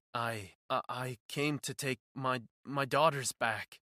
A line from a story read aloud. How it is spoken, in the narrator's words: he stammered, looking around nervously